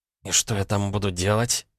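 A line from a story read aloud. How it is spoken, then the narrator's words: Hissing. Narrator (Russian): зашипела она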